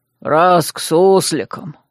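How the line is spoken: Head groom chuckling into beard. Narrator (Russian): хмыкнул в бороду главный конюх

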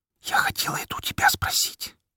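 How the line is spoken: Whispered in reply. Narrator (Russian): прошептала она в ответ

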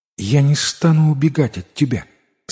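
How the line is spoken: Calm despite fear. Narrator (Russian): сказала царевна спокойным голосом, хотя была страшно напугана

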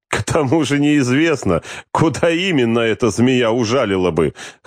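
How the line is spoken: Chuckling. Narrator (Russian): хохотнул капитан Сергеев

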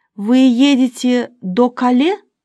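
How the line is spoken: Plain question. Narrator (Russian): спросила она

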